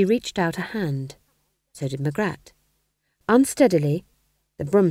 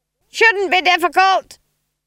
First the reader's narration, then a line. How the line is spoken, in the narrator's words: screamed Granny above the noise of the wind